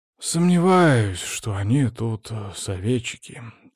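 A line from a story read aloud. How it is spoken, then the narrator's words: Heavy sigh. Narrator (Russian): тяжело вздохнул парень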